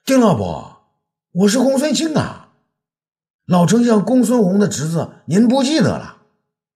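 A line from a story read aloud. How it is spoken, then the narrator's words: Shouting. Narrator (Chinese): 他大叫道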